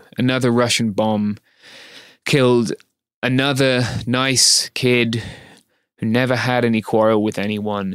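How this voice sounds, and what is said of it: Upset, emotional voice. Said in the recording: “As you can probably hear in my voice, I'm quite upset”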